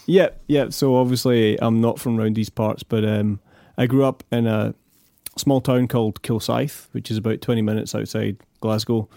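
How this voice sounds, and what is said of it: Non-local foreign accent. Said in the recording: “by your accent, we can tell you're from somewhere else”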